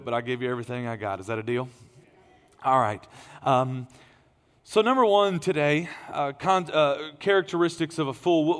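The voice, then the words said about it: Strained, tired voice. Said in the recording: “my voice is straining a little bit”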